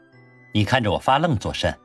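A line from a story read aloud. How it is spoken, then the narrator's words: Calm offhand question. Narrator (Chinese): 男子淡淡的……问道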